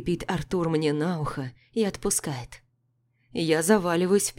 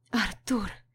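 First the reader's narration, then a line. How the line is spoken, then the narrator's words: Barely audible utterance. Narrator (Russian): произношу еле слышно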